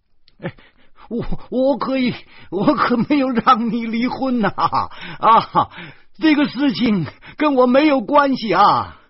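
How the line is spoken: Clamoring from behind. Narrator (Chinese): 石谦在后面嚷嚷着

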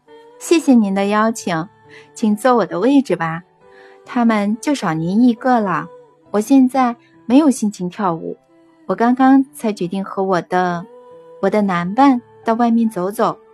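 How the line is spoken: Smiling reply. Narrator (Chinese): 安娜斯塔夏 笑着回答他

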